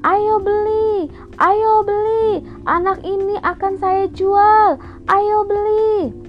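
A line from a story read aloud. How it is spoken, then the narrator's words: Kidnapper shouting. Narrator (Indonesian): Penculik itu berteriak berkata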